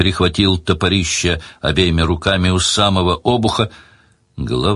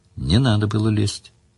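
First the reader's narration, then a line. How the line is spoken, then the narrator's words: Calm. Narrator (Russian): спокойно сказала Мара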